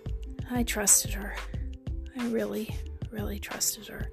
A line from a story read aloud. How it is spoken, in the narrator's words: Crystal said with a raspy voice